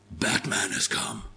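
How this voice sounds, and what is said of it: Imitates Batman's voice. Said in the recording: “my best Batman impression.”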